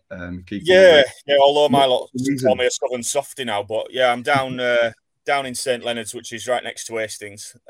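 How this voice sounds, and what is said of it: Mellowed Bradford accent. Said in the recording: “you've got a Bradford accent still ... accent's mellowed after all that time ... a little bit. It's still there”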